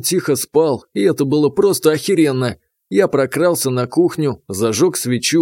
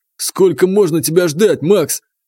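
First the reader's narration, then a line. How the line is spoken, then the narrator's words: Habitual, half-serious bark. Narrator (Russian): рявкнет он не всерьез, а просто по привычке держать подчиненных в ежовых рукавицах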